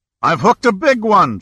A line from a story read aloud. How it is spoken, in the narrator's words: shouted Joe Hagen joyously